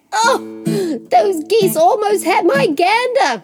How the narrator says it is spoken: exclaimed the cheese

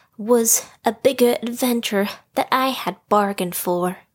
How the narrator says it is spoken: Roo panted

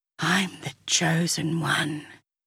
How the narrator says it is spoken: whispered the dust boy

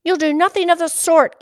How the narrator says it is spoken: Katie snapped

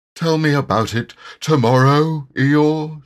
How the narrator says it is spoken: said Pooh sleepily

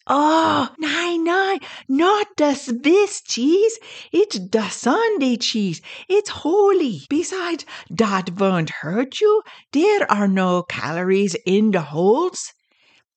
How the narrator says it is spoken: Ostahoga screams

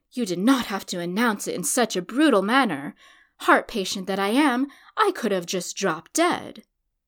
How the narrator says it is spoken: He flung his hand across his heart and grew pale, gasping

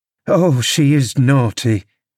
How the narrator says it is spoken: I cried

